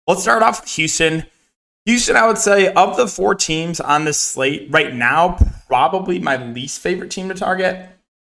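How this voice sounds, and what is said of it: Strained, partly lost voice. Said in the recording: “my voice sounds a little bit weird. It's kind of lose my voice a bit”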